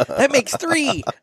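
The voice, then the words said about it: Nerdy put-on voice. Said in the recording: “You went into your nerd voice there.”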